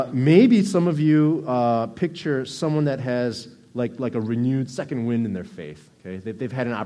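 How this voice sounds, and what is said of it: Usual voice. Nothing is said of it.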